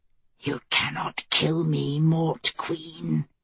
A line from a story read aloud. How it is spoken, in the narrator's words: it whispered